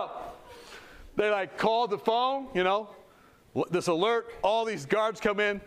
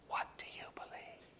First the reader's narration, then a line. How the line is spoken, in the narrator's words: Started to whisper back to me